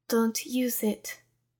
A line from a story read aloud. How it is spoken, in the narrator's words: Whisper warned him